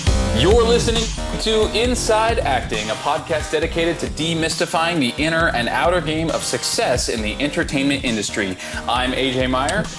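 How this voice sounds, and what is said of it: Booming radio announcer voice. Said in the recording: “Your announcer voice is in full force this morning”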